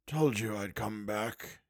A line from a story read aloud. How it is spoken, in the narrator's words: murmured